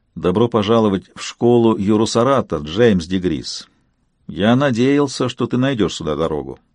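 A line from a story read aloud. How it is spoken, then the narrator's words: Quiet. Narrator (Russian): тихо произнес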